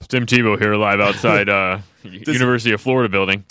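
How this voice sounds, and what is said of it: Very deep low-pitched voice. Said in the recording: “how many octaves does his voice drop? ... Sounds like Barry White”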